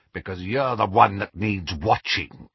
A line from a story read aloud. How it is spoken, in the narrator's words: growled Moody